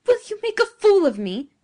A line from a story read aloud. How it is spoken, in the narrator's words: cried Giovanni passionately